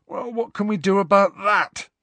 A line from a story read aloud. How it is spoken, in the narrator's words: said Ron, yawning